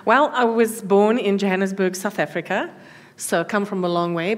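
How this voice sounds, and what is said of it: South African accent. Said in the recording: “you do have an accent.”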